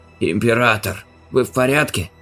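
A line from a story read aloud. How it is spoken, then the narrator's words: Breathless exhale. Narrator (Russian): выдохнул Рабаут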